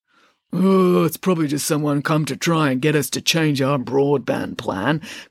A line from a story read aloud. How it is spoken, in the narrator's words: grumbled Hades